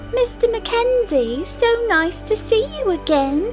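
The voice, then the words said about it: Affected British accent. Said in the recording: “with affected British accents”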